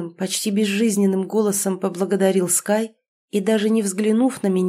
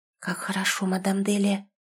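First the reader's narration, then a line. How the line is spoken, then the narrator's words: Whisper. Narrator (Russian): шепотом проговорила Натиша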